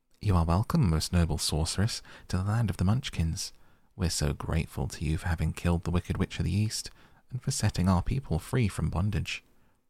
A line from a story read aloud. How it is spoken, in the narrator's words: the little old woman said in a sweet voice